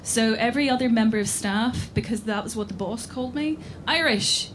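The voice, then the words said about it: Northern Irish accent. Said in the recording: “people would hear this accent ... as a person from the north of Ireland”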